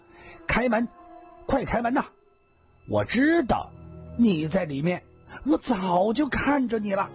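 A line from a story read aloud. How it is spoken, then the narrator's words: Loud urgent voice. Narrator (Chinese): 一个人大声地说道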